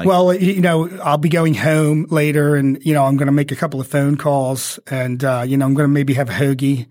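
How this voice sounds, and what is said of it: Baltimore or Philadelphia accent. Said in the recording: “I don't know if you're from Baltimore or Philadelphia... that accent”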